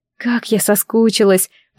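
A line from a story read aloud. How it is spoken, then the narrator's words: Whisper. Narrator (Russian): прошептала я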